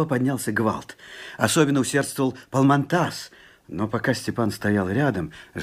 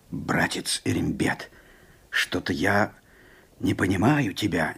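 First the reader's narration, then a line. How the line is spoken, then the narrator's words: Quiet remark. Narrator (Russian): негромко заметил Палмантас джигиту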